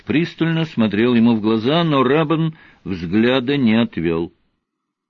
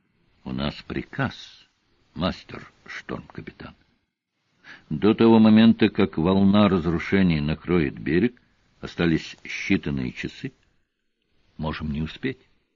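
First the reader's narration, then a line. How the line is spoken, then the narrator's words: Quiet reply. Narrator (Russian): Тихо и вроде бы не по теме он ответил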